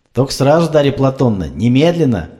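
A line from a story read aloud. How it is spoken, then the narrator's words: Shout while leaving. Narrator (Russian): Уже уходя, крикнул Сеич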